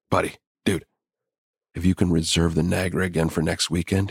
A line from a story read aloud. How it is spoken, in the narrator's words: whispered excitedly